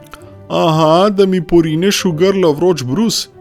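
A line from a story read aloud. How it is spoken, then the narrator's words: Calling back. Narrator (Slovenian): je on zaklical nazaj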